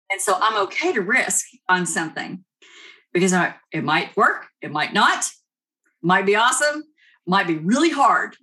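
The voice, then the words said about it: Kentucky accent. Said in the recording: “So you're in Kentucky, right? ... I love your accent. It's adorable.”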